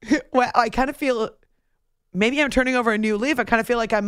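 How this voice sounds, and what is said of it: Usual voice. Nothing is said of it.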